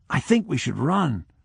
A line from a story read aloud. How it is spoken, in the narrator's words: whispered the young teacher